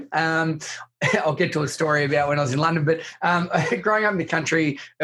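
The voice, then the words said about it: Australian accent. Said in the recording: “I grew up in country Victoria in Australia ... you can probably tell by my accent that it's not as lovely as yours”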